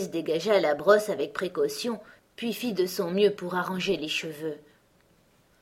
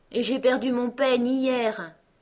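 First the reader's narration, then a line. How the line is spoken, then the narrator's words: Queen, deep sigh. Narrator (French): dit la reine en poussant un profond soupir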